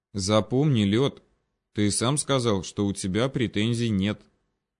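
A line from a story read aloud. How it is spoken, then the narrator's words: Quiet. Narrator (Russian): тихонько произнес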